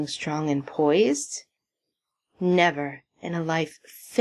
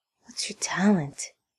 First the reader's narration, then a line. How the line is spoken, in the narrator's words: Tad asks, and then more quietly